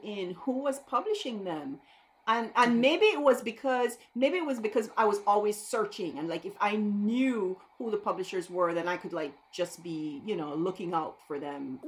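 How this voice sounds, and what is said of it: Belizean accent. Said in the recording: “to get the accent out of the way, I'm from Belize”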